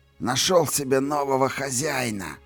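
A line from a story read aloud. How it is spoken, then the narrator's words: Wheezy rasp. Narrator (Russian): просипел он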